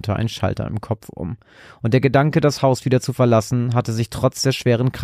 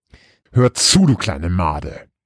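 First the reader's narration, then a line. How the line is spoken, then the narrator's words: Deep growl. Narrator (German): knurrte sie ihren Bruder mit tiefer Stimme an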